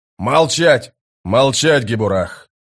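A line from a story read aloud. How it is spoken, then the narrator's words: Barked sergeant's command. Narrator (Russian): рявкнул сержант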